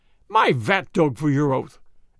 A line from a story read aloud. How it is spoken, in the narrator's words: exclaimed the vrouw